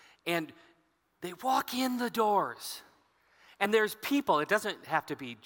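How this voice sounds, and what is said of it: Usual voice. Nothing is said of it.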